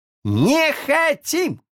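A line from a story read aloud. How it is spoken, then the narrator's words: Many voices yelling together. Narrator (Russian): заорали все разом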